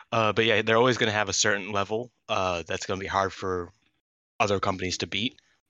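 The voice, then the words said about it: Hoarse, failing voice. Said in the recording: “I'm losing my voice as we speak.”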